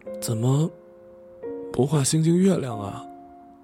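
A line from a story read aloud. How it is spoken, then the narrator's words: Steadied voice after choking up. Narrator (Chinese): 我深呼吸，平复了哽咽之后，问他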